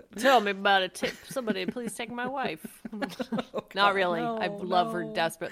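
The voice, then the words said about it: Imitates another person's voice. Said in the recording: “my Rodney Dangerfield impersonation”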